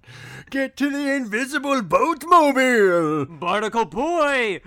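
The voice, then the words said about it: Cartoon old superhero character voice. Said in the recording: “my Mermaid Man impression. It's pretty spot on ... I sound more like the fish reporter announcer guy”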